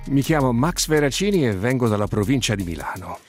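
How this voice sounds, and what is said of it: Italian with noticeable American English accent. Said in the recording (Italian): “con un accento proprio sensibilmente americano inglese”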